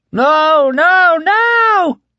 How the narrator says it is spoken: Heck screamed in frenzied counterpoint

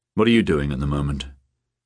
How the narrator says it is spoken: Beata sighed

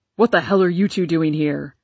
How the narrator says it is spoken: roared Papa

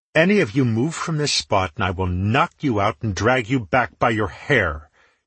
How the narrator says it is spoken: she growled at them

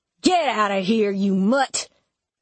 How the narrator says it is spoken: Duke growled

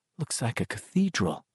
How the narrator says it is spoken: Beverly said softly

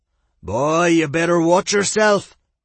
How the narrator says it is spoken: Bard growled playfully in return

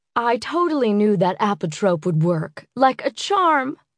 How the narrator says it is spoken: she exclaimed, snorting through the phone

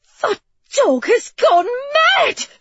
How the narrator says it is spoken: she gasped

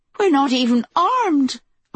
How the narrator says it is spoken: a woman cried

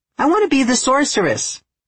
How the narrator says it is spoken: Leah exclaims

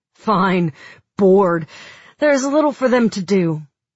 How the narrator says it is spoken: He snorted and said

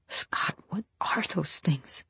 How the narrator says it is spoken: she whispers

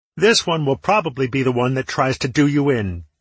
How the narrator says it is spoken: Tallow yelled back to me

